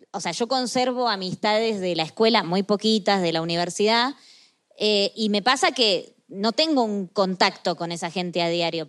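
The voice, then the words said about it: Speaks with a non-local accent. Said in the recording (Spanish): “como se habrán dado cuenta por mi acento”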